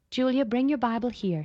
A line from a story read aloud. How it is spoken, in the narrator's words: she said